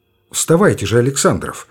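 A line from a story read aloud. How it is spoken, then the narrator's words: Calm. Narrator (Russian): сказал он спокойно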